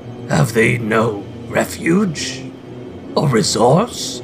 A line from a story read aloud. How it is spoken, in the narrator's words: cried Scrooge